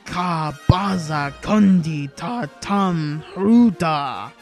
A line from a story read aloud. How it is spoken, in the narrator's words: he growled